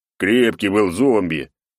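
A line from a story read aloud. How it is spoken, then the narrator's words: Guilty deep bass. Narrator (Russian): Виновато пробасил Косолапый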